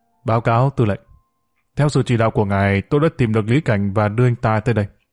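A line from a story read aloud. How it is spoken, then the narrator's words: Stern, formal voice. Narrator (Vietnamese): liền nghiêm giọng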